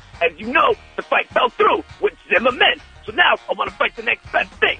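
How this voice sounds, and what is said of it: Bad DMX impression. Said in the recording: “this is an impression of DMX ... That is the worst impression of a rapper I've ever heard.”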